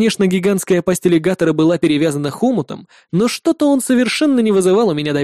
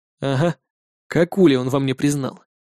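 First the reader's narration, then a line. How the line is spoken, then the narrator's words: Sighed. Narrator (Russian): Вздохнул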